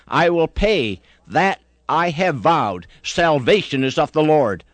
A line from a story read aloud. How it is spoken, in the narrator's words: he cried